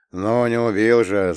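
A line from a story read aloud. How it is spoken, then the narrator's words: Grumbling. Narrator (Russian): заворчал я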